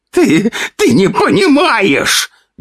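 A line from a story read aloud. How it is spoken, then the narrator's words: Spluttering shriek. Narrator (Russian): визжал он, брызжа слюной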